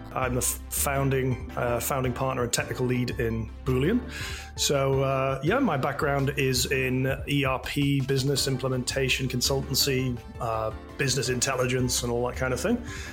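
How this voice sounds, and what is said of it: Northeast English Durham accent. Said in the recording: “I am from Durham in Northeast England. You may have picked up the accent.”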